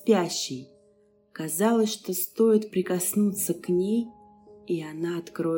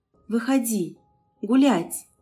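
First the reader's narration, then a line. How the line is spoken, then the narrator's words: Exhaled words. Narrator (Russian): выдохнула она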